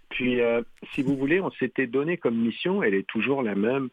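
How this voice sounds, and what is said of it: Quebec French Victoriaville accent. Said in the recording (French): “quand on m'entend, on reconnaît tout de suite ... l'accent ... de ... Victo, hein, les quartiers nord”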